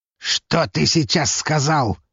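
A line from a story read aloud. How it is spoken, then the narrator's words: Growl. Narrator (Russian): прорычал он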